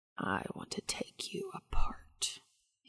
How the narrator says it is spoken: he whispered

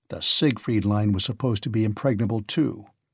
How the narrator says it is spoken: The old anger came back to Price, and he said sullenly

